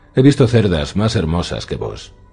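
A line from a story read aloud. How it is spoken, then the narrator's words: Mocking. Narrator (Spanish): dijo en tono burlón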